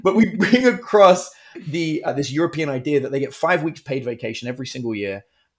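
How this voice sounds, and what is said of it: British accent. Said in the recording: “I'm British, in case you can't tell by my Texan accent.”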